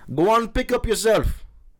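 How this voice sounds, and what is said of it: Weak attempt at Caribbean accent. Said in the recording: “I don't think my accent's very good for Caribbean.”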